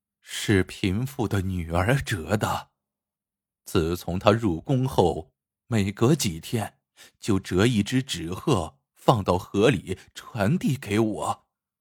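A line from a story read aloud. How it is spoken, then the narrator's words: Slow wistful sigh. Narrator (Chinese): 老妇叹了一口气，悠悠的道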